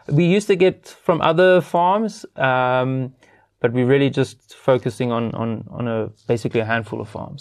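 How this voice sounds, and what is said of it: Strong Afrikaans accent. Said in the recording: “You've developed quite a hectic Afrikaans accent.”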